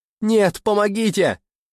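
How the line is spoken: Desperate scream. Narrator (Russian): я закричала, отчаянно барахтаясь

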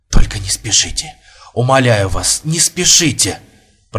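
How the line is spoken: Pleading whisper. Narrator (Russian): прошептал Бурмистров

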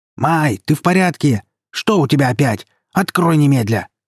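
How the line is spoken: Shouting while banging. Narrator (Russian): кричала она тарабаня

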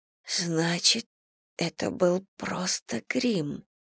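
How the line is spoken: Whisper. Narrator (Russian): прошептала Селия

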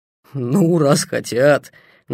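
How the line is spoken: Mocking. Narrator (Russian): насмешливо сказал он

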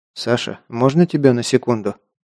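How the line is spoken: Quiet call. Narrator (Russian): тихонько позвал его Лобов

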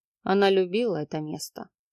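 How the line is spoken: Quiet. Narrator (Russian): тихо проговорил Марат

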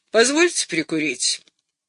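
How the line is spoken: Gloomy. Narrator (Russian): сказал мрачно

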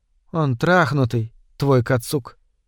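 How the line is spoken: Quiet, bitter voice. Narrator (Russian): тихим, горьким голосом

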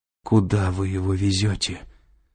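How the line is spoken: Weakening voice, asking. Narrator (Russian): слабеющим голосом спросила Кэтрин

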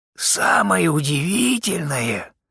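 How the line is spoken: Creaky voice. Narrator (Russian): проговорил скрипучим голосом Кофорд

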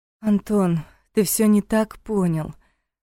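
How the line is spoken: Tired, defensive. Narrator (Russian): устало начала оправдываться Таша

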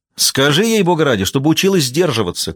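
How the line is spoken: Shouted after someone. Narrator (Russian): крикнула ему вдогонку Джейн

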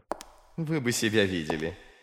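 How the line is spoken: Giggling. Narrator (Russian): хихикал практик

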